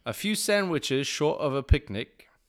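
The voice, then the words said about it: Attempted British accent. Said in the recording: “I'm going to try my best British accent here ... I apologize if I butcher it”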